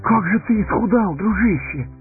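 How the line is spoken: Exclaiming. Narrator (Russian): воскликнул Сэмми

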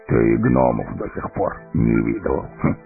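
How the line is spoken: Contemptuous snort. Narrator (Russian): презрительно фыркнул Гимли

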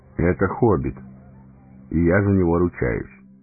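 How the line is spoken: Calm. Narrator (Russian): спокойно ответил Гэндальф

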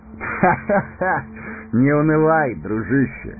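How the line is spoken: Laughing. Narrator (Russian): рассмеялся Арагорн

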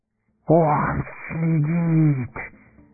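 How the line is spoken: Wheezy hiss. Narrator (Russian): просипел Горлум

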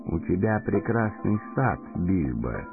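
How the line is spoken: Quiet speech. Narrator (Russian): тихо проговорил Гэндальф

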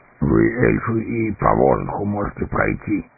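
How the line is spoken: Dwarf grumbling. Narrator (Russian): проворчал гном

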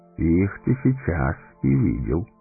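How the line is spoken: Calm. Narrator (Russian): спокойно сказал Гэндальф

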